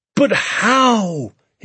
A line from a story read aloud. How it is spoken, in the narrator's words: he cried